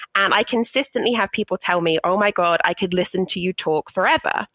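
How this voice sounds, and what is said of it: British accent. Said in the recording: “I love your accent. I love the British tone to the voice... sounds so sophisticated”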